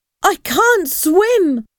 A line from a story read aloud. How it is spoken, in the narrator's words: Paul shouted in terror